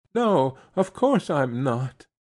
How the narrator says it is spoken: she quavered

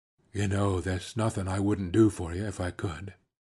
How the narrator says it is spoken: He lowered his voice to say

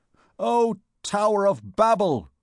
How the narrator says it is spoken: he exclaimed

